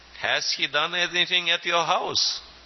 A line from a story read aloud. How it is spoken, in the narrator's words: They laughed and said